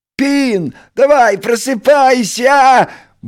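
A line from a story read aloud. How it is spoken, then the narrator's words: Cheerful shouting. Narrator (Russian): бодро прокричал Крош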